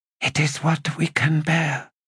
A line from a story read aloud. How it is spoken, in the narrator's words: she whispered